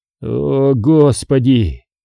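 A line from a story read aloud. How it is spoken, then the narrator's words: Relieved sigh. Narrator (Russian): Кариат, чувствуя себя последней скотиной, вздохнул почти с облегчением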